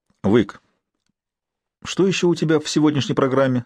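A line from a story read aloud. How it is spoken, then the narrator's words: Fairly calm question. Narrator (Russian): спросил он относительно спокойно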